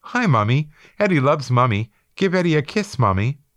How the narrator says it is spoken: He loudly squawked

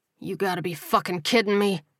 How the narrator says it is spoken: Coleman growled

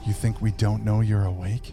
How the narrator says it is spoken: leaned in close and, in a whisper that tickled his ear, said

